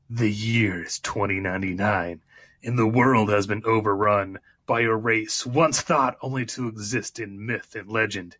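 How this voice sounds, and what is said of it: Dramatic announcer voice. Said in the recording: “Look at my announcer voice.”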